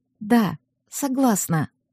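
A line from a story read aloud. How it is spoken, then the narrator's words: Quiet frightened answer. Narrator (Russian): ответила я, пугаясь того, как тихо звучит мой голос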